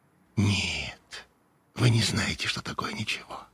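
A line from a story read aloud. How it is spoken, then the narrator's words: Whispering. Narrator (Russian): зашептала она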